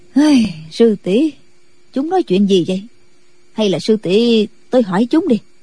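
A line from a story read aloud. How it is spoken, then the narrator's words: Confused sighing woman. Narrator (Vietnamese): Định Vật sư thái càng không hiểu được đầu đuôi ra sao, bà thở dài nói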